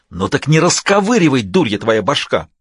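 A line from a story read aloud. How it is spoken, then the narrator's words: Angry hiss. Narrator (Russian): рассерженное шипение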